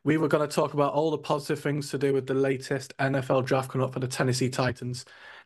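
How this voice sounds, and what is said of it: Slightly northern English accent. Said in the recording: “You can tell by my slightly northern accent.”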